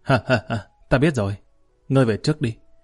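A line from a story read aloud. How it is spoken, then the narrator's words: Sudden hearty laughter. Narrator (Vietnamese): Lý Kỳ bỗng bật cười ha hả nói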